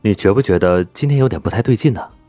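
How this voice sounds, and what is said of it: Quiet, hushed voice. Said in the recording (Chinese): “小声的对旁边的温之夏道”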